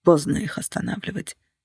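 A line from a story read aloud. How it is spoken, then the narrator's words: Quiet. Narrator (Russian): сказал он тихо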